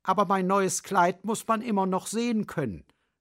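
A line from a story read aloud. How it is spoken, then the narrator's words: Plain. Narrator (German): sagte der Pfau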